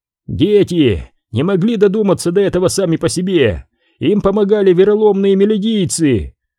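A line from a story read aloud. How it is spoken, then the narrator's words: Shout. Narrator (Russian): закричал один из даанов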